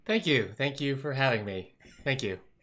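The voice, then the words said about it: Bland, polite public-radio announcer voice. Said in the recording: “So vanilla ... Your best NPR impression?”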